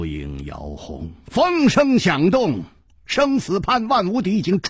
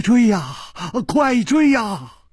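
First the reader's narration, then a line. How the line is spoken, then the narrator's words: Trembling, terrified. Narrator (Chinese): 金半花早已经是面无人色了，他颤声说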